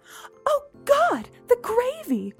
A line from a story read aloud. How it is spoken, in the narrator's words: Mom shrieked